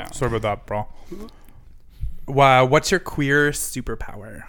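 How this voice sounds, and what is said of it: Usual voice. Nothing is said of it.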